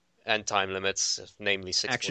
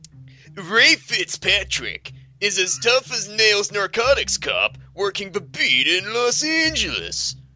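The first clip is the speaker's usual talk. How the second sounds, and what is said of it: Dramatic movie trailer narrator voice. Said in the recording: “I'm going to do my fucking best like movie trailer voice because this is like an action movie. It's like a dramatic action movie ... I'm going to put on my best trailer voice”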